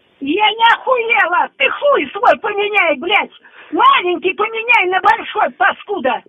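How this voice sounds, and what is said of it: Angry shouting. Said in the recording (Russian): “не кричите! ... Не кричите”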